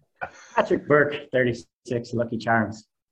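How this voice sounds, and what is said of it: Put-on Irish accent. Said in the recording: “give us your Irish accent ... Oh, there it was. Oh, that was good, man. That was really good.”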